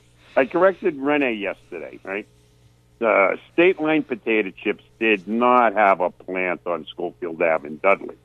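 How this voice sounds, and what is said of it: Central Massachusetts accent. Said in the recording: “I was born in Worcester, but I grew up in Dudley ... to reinforce my accent even more wicked pisser”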